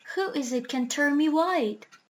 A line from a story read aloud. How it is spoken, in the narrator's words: cried Bumper, clasping his hands in joy